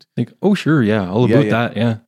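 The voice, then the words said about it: Put-on Canadian accent. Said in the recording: “Can you do the accent? It's a funny accent.”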